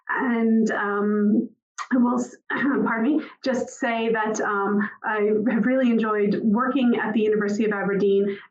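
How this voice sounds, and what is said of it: American Boston-area accent. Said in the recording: “you can tell from my accent, I'm not native to Aberdeen. I was born just outside of Boston, Massachusetts.”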